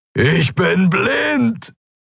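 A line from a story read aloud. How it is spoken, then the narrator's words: Bellowing. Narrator (German): brüllte er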